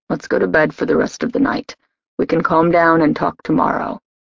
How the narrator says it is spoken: He murmured

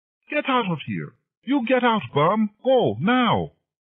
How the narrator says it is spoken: the owner screamed

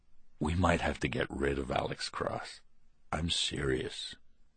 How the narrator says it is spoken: said in a whisper

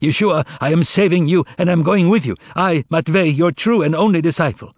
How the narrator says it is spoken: shout

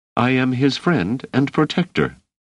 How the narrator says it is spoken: Doris said calmly

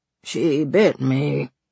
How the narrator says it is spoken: he murmured

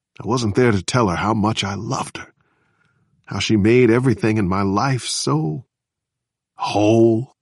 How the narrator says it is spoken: Samson said softly

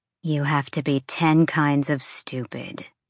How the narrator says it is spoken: Fury hissed at Bryce

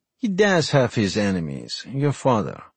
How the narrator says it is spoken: Ghulam sighed

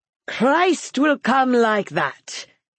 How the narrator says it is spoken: he said in a loud, gay voice

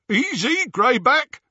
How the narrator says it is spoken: said Scabier, over the jeering of the others

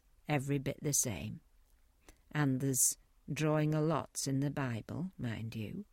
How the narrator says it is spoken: he added in a lower tone

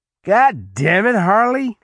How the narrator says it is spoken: Leroy yelled

